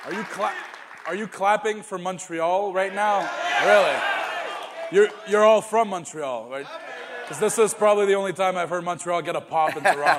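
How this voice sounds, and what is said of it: Montreal French-Canadian accent in English. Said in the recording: “you come from Montreal, and you can still hear the accent”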